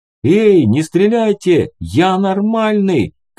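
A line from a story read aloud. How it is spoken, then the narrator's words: Shout. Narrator (Russian): крикнул он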